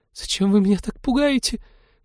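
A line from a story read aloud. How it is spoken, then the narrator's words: Squeak. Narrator (Russian): пропищала она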